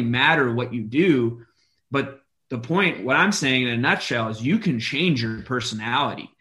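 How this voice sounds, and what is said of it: Usual voice. Nothing is said of it.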